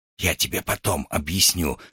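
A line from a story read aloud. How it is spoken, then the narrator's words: Whisper. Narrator (Russian): шепнул ему РВ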